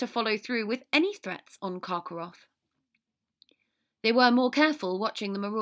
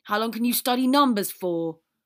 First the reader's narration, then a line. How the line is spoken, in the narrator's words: Ron exclaimed in agitation